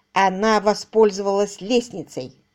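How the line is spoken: Plain. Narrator (Russian): сказал Рэндалл Марч

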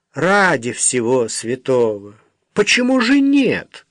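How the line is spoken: Commanding, awe-inspiring exclamation. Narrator (Russian): воскликнула одна из них таким тоном, который однажды поверг в благоговейный трепет целую толпу начальников, мужчин средних лет

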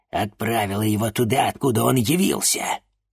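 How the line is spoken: Hiss. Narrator (Russian): прошипела Анаит

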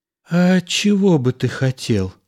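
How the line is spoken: Timid wife's question. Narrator (Russian): робко спросила жена

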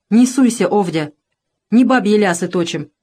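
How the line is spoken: Stern interruption. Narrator (Russian): строго оборвал жену Еремей

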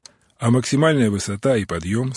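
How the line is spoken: Plain. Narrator (Russian): спросил Отто

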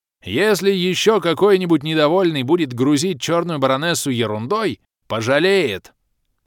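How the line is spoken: Thunderous roar. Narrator (Russian): Громогласно заорал барс, крича прямо в зеркало

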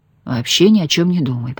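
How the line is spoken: Whisper in ear. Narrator (Russian): прошептал Пьер ей на ухо

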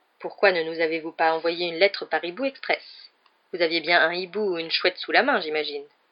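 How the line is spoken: Curt question. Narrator (French): demanda sèchement le professeur McGonagall à Harry

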